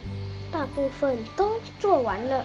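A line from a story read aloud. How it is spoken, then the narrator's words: Quiet answer. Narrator (Chinese): 小声回答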